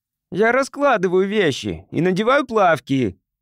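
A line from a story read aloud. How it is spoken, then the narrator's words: Boy's shout. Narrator (Russian): крикнул мальчик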